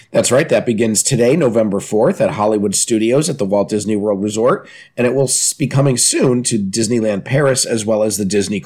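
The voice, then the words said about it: Slightly nasal, congested voice. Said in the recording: “I'm still a little nasally”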